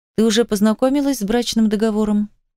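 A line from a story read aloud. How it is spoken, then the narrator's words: Heavy sigh, clarifying. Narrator (Russian): Тяжело вздохнув, я решила прояснить ситуацию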